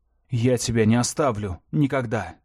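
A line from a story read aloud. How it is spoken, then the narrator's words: Plain. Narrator (Russian): сказал Бран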